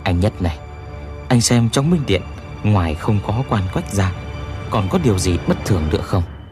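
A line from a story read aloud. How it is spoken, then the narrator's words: Soft prompting. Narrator (Vietnamese): Răng vàng nhắc khẽ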